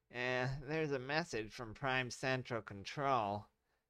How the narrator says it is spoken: Billy yelled to the general

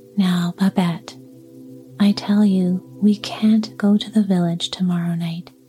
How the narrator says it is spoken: answered Antone

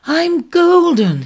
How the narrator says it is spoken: he cried

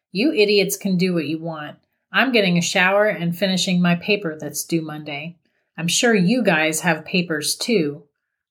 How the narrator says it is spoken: Liam flatly stated

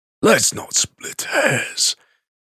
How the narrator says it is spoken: the veteran wheezed

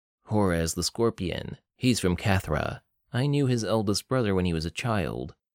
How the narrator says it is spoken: Chesner said

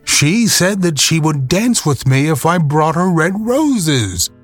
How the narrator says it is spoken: cried the young student

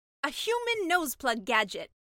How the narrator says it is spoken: the mermaid exclaimed

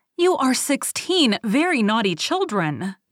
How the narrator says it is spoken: exclaimed the old woman

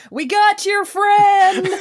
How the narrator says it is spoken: Alan Tudyk hollering at the top of his lungs

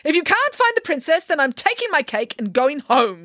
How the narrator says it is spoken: yelled Nanny Piggins

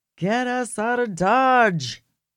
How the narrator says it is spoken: yelled Wild Bill to the driver

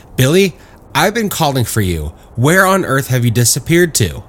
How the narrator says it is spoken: she exclaimed

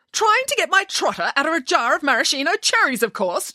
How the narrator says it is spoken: she snapped

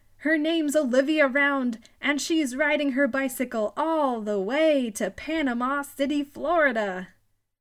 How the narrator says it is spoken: Finally, he shouted

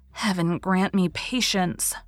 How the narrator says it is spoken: she said under her breath

